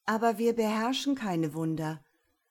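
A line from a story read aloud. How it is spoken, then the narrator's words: Young monks, sad reply. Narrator (German): antworteten die drei jungen Mönche, und sie wurden ganz traurig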